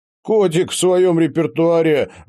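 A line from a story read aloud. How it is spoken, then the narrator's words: Strained, through laughter. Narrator (Russian): выдавил он сквозь смех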